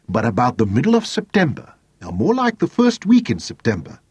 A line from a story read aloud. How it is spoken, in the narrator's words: Jane said firmly